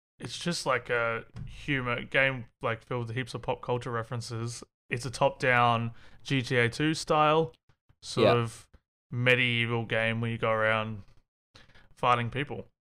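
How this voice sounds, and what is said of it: Australian accent. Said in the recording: “he has an Australian accent”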